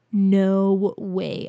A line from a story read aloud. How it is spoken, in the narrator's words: I groaned